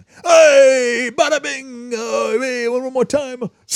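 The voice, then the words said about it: Bad put-on Italian accent. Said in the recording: “my bad Italian impression”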